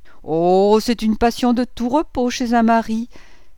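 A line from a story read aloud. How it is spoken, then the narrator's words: Exclaiming, stifling wicked laugh. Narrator (French): s'écriait Madame Bontemps en étouffant un rire satanique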